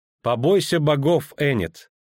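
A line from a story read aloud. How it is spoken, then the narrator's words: Laughing. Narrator (Russian): рассмеялась Филиппа Эльхард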